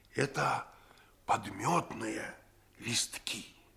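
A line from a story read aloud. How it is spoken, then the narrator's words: Triumphant whisper. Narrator (Russian): Я победоносно прошептал ему в ухо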